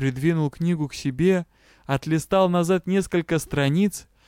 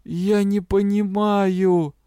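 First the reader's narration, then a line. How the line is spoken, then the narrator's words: Moaning. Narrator (Russian): простонал Тесмы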